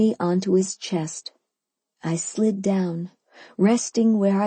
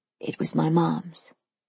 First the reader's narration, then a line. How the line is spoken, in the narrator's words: he said quietly